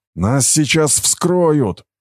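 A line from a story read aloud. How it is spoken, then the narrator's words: Distant roar. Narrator (Russian): взревел кто-то в дальнем углу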